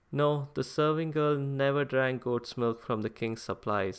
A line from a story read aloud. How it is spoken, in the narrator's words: said the investigators